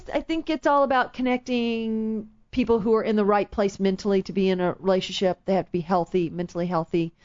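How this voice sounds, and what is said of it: Southern accent. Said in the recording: “With my southern accent, my accent comes out more.”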